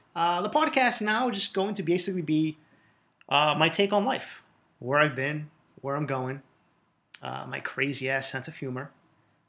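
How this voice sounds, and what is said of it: Boston accent. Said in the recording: “You will hear this Boston accent.”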